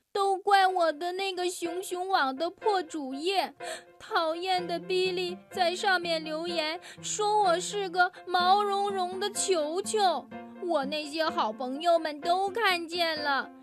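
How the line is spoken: Sobbing. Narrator (Chinese): 小熊妹妹抽泣着说

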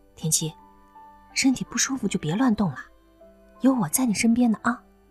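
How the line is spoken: Soft, close by. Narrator (Chinese): 刘亚楠赶紧在他身边轻声说着

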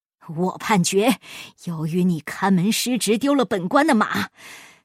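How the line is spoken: Sudden, stern. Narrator (Chinese): 他突然厉声说

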